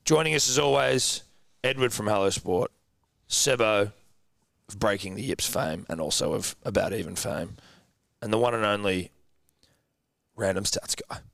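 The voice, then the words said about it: Strained, worn-out voice. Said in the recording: “Apologies for my voice... that's just where my voice was going... You are struggling... you might need to nip back into the Star and have a look for that voice of yours.”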